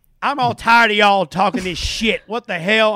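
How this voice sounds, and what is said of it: Thick country accent, angry. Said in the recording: “the thickest country accent ... Whenever ... gets angry, the accent comes out”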